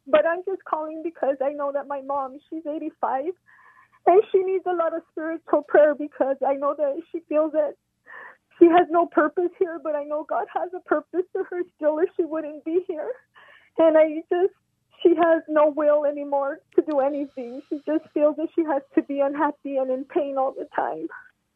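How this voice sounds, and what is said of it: Emotional, choked-up voice. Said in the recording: “I don't know why I got emotional right now”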